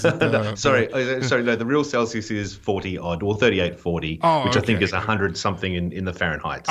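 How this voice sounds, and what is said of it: Non-American English accent. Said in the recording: “your non-American accent”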